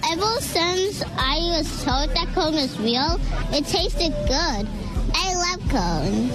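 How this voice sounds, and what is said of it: Young child with unusual accent. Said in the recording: “That is a weird accent, though.”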